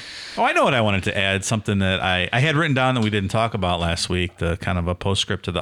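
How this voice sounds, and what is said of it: Usual voice. Nothing is said of it.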